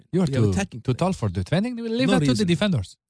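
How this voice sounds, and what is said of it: Impression of Roberto Martinez. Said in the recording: “my impersonation? ... Roberto Martinez”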